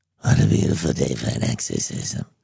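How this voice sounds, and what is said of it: Regan from The Exorcist impression. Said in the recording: “You'd be like Regan in The Exorcist. ... I do that impression.”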